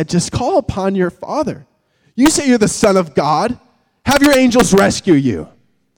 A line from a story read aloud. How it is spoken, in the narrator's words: mocked said